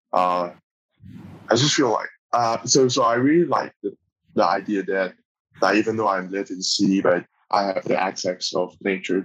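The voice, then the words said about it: Taiwanese accent. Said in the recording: “when people know I'm Taiwanese ... the Taiwanese accent”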